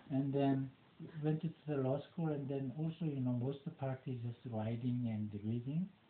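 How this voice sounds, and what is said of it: Non-native English accent. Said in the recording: “Because of my accent ... since I couldn't fix my accent”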